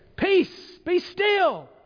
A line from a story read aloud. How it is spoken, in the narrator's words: Jesus excitedly says